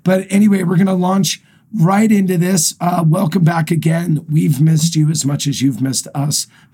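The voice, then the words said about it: Hoarse, strained lost voice. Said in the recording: “As you can hear my voice ... lost my voice ... which is why I lost it”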